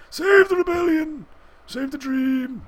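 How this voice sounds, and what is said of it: Labored, breathy character voice. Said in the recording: “he did the voice. He did the voice because he was like, having trouble breathing, kind of. That was his having trouble breathing voice.”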